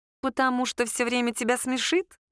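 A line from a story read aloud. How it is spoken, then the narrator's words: Snide question. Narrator (Russian): ехидно спросила Саша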